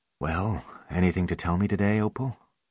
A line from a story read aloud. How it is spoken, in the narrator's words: asked the doctor softly